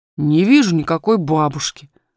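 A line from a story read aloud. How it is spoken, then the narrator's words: Rather rude reply. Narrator (Russian): ответил он довольно грубо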